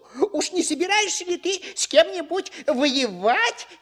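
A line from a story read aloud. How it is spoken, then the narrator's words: Cheerful grunting. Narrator (Russian): весело прохрюкал Ниф-ниф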